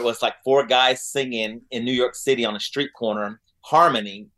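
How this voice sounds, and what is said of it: Oklahoma accent. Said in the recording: “Oklahoma City, okay. You still got that accent, too.”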